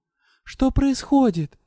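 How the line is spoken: Frightened exclamation. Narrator (Russian): испуганно воскликнула я

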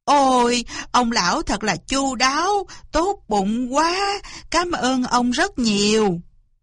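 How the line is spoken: Effusive thanks. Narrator (Vietnamese): Cáo cảm ơn rối rít

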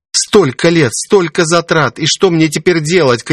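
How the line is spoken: Shouting. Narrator (Russian): крикнула она

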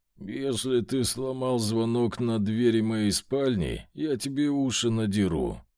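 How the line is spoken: Hoarse, sleepy voice. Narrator (Russian): хриплым сосна голосом сказал я

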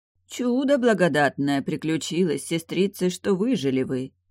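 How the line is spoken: Solemn proclamation. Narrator (Russian): возвестил монах, торжественно

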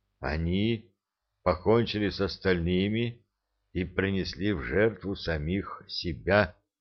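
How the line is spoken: Muffled, hollow voice. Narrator (Russian): глухо сказал стоящий позади Энет

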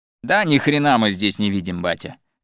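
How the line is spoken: Tipsy shouting. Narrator (Russian): закричал Иван Эдуардович, будучи, как мы уже сказали, немного выпивши

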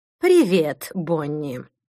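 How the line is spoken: Gloomy. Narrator (Russian): мрачно произнесла Мадлен

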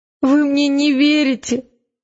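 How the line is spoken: Sobbed. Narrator (Russian): всхлипнула Элис

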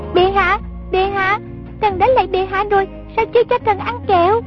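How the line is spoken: Child shouting. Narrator (Vietnamese): giọng con nít la lên

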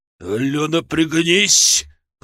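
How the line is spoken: Growl. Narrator (Russian): прорычал Бат

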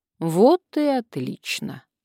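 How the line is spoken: Calm. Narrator (Russian): спокойно сказал Леонид

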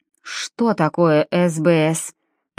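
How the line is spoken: Asked through gritted teeth. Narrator (Russian): поинтересовался анестезиолог сквозь зубы

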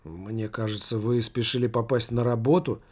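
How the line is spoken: Mutter. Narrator (Russian): пробормотал знакомый незнакомец

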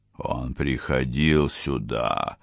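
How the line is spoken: Muttering through teeth. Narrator (Russian): пробормотал сквозь зубы де Пальма

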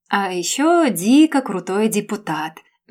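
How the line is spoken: Dreamy drawl. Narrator (Russian): мечтательно протянула Камила

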